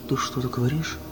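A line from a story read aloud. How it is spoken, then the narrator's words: Plain question. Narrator (Russian): спросила Мадлен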